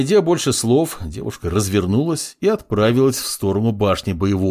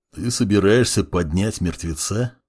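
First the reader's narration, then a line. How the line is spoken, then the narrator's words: Plain question. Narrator (Russian): спросил Буран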